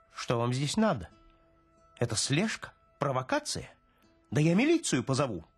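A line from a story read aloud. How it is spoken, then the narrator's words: Squeak. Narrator (Russian): пискнул начмет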